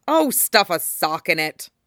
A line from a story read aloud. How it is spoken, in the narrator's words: Kurama growls